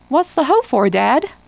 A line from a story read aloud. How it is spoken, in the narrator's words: They laughing